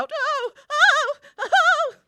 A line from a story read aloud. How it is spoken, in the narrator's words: Conrad cries out